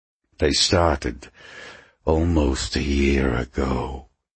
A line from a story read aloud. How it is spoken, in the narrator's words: Mephisto replied in a silky hiss